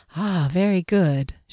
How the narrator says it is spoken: she sighed

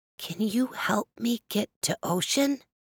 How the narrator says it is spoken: the whisper

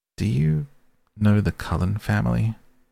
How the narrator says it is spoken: I asked hesitantly

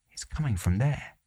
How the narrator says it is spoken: My father whispered

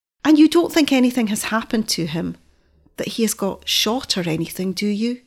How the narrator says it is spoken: asked so eagerly and wistfully

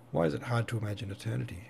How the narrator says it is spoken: said Natasha

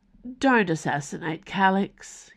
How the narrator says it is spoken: he mumbled

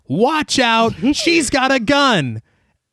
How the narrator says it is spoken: someone shouted

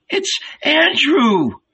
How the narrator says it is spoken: Old Salome suddenly cried

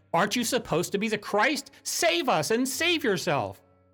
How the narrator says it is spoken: One derisively was shouting at him

